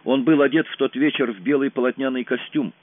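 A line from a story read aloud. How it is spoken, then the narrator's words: Plain. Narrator (Russian): сказала Майра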